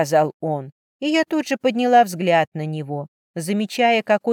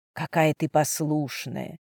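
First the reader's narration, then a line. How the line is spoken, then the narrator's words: Breathed, to no one. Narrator (Russian): Словно бы ни к кому конкретно не обращаясь, выдохнул он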